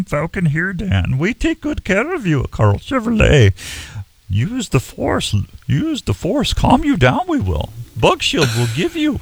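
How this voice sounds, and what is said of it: Yoda impression. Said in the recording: “a little New Delhi accent in there as well? ... Yoda imitations”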